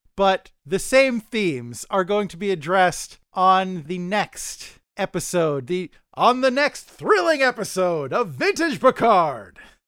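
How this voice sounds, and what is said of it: Bombastic radio announcer voice. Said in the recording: “That's my bombastic radio voice.”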